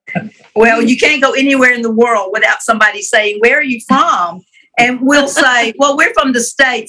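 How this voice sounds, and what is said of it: Southern US accent. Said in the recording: “I am loving hearing y'all's accents. I love a beautiful Southern accent. I think it's a very sweet thing. So y'all have great accents.”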